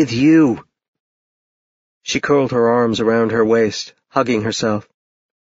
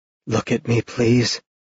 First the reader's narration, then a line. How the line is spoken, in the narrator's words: he said softly